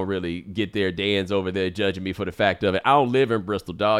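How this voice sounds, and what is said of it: Usual voice. Nothing is said of it.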